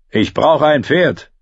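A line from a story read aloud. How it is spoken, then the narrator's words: Roaring shout. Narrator (German): brüllte er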